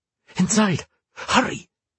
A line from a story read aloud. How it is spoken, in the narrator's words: Rhea hissed